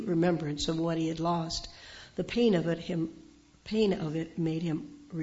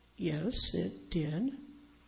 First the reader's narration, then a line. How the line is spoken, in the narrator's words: Pete answered softly